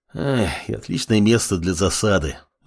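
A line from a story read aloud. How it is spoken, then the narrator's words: Sighing. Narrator (Russian): вздохнул командующий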